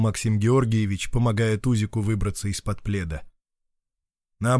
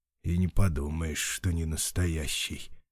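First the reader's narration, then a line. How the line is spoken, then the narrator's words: Grumbled. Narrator (Russian): проворчал Максим Георгиевич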